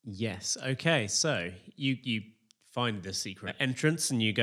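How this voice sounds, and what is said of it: Usual voice. Nothing is said of it.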